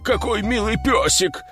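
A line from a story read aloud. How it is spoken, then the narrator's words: Babbled. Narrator (Russian): пролепетал он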